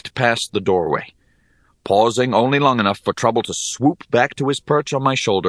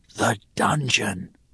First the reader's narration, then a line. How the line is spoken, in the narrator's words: I whispered above the constant rumbling